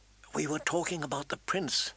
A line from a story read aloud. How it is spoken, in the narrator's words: Sansa said, her voice soft as a kiss